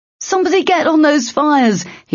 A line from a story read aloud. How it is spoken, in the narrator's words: shouted over the yell of the alarm